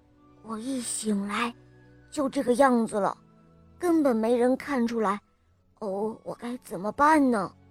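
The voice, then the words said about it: Whispering, quiet voice. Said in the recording (Chinese): “他小声地说”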